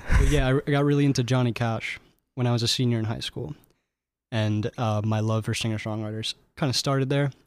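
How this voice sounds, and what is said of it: Speaks very quietly. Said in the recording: “I'm talking very quietly.”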